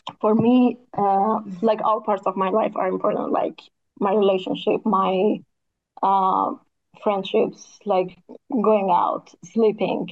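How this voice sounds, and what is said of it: Strained, nearly lost voice. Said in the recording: “my voice is gone”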